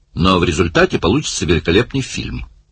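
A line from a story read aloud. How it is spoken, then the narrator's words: Cheerful remark. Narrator (Russian): бодро заметил Барни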